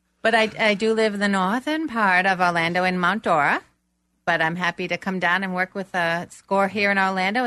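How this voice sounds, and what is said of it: Boston accent. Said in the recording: “you might guess that I'm from Boston... he couldn't tell that accent”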